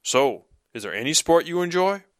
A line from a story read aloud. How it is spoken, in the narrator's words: Norman grunted a laugh and asked